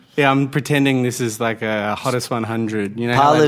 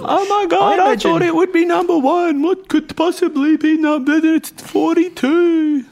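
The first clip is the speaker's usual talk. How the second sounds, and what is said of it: Impression of a party guest. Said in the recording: “That's my impression of a hottest 100 party.”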